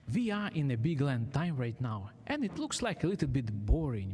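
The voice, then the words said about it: Ukrainian accent. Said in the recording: “originally I am from Ukraine, and I hope you will enjoy my Ukraine accent”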